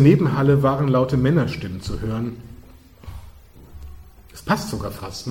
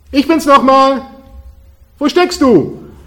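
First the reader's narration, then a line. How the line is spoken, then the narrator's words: Called out. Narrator (German): rief Babe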